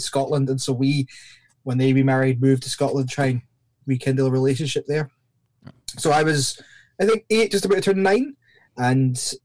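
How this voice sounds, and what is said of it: Mixed Scottish and Northern Irish accent. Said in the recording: “my accent's pretty messed up. Scottish people probably think I sound from Northern Ireland, and Northern Irish people think I'm from Scotland ... kind of a hodgepodge”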